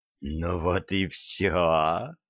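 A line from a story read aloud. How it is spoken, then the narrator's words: Hiss. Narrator (Russian): прошипела Илаха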